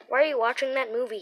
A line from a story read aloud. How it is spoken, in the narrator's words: he asked